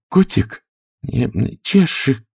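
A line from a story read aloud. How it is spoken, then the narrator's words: Timid start. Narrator (Russian): робко начала Алиса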